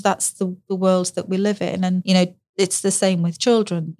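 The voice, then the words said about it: Northern English accent. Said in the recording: “I'm from the north ... my northern accent. You know, I sound different.”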